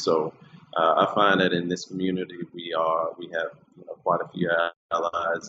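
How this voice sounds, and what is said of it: Strong New Orleans accent. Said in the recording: “You have a very strong New Orleans accent... I can hear it in your voice. And it is such a distinct accent.”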